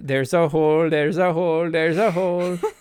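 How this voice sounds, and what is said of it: Sung in put-on Scandinavian accent. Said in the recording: “Why you give them an accent? ... because they're like a Swedish band or Scandinavian.”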